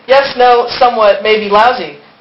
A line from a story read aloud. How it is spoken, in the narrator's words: the Vespa replied